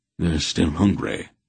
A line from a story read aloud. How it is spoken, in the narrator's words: Wolf replied grimly